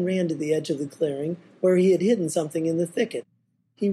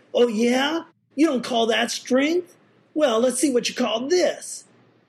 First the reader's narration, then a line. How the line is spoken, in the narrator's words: Man shouted in anger